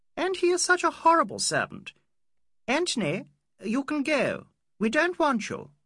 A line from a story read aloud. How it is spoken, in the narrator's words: said the girl impatiently